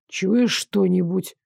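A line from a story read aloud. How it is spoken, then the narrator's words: Barely audible question. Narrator (Russian): Чуть слышно спросил он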